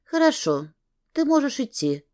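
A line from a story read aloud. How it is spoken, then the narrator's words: Gentle. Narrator (Russian): мягко сказала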